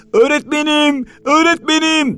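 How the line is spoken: Desperate frantic shouting. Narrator (Turkish): diye bağıra bağıra, çaresizlik içinde yırtınırcasına

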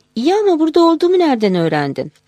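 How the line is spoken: Laughing. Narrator (Turkish): Güldü

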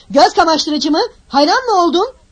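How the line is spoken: Shouted. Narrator (Turkish): diye bağırdı

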